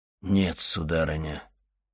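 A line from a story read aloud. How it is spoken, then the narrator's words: Dull, muffled voice. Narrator (Russian): глухо промолвил Вильфор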